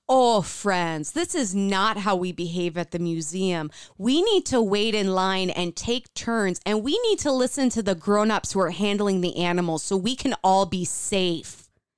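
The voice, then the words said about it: Stern teacher voice. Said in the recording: “I will whip out my teacher voice. It's going to get scary up in here.”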